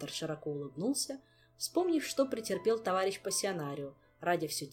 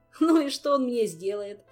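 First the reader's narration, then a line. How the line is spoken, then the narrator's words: Burst of laughter. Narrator (Russian): расхохотался Кантор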